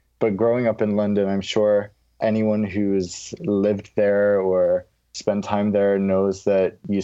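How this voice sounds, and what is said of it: American accent. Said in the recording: “that's also how I developed my American accent once I left the UK, where I had a British accent. And as I grew up, this is now how I sound.”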